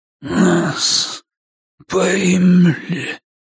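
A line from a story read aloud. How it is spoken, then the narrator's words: Hoarse wheeze. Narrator (Russian): хрипит он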